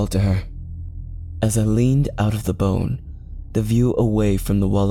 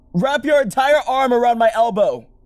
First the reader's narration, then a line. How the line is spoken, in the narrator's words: I shouted